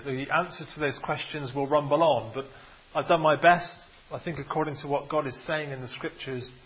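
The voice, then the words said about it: Bristol English accent. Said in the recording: “my Bristol accent”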